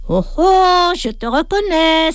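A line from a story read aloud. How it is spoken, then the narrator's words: Sudden exclamation, woman. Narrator (French): s'exclame soudain une dame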